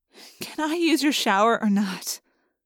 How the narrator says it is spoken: I sighed, no longer giggling

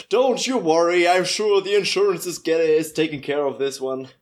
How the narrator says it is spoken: I'm just screaming over my shoulder

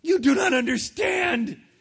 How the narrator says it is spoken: screamed Phil

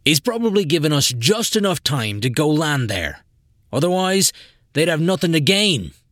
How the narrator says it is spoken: Jim shouted over the alarm

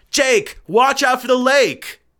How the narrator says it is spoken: immediately shouted out

